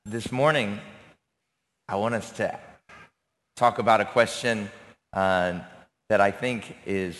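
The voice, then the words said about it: Raspy, strained voice. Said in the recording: “I'm usually not this raspy ... I lost my voice, and then now I sound like this.”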